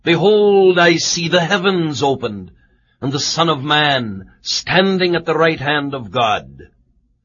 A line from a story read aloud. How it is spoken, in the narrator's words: suddenly he cried out